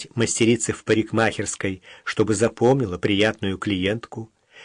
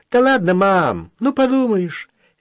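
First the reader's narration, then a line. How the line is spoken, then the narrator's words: Cheerful cocky unrepentant tone. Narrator (Russian): Весело и задиристо ухмылялся Володька, словно не чувствуя за собой никакой вины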